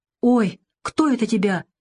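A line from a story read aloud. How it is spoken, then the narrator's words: Frightened exclamation. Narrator (Russian): испуганно воскликнула девушка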